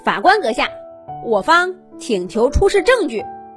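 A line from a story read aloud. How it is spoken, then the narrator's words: Loud. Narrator (Chinese): 比克大声说道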